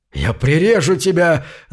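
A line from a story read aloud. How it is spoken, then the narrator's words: Pirate yelling. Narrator (Russian): заорал пирота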